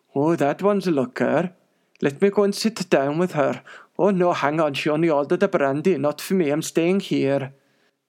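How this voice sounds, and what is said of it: Poor put-on Welsh accent. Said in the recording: “that is a terrible Welsh accent.”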